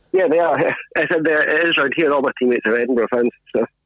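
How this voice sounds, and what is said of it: Regional accent. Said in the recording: “A little bit of a different accent to everyone that we've had so far.”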